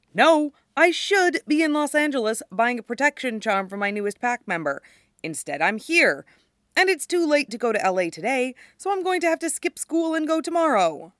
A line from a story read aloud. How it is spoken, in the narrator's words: Styles scowls at her involuntarily and snaps